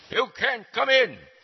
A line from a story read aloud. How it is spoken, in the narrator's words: the door guard shout